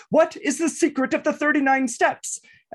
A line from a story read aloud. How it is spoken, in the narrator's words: He shouts out